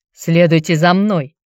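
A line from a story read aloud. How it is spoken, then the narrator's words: Deep bass voice. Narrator (Russian): пробасил громила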